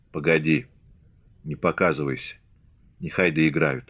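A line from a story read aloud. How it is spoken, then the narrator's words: Whisper. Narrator (Russian): шепнул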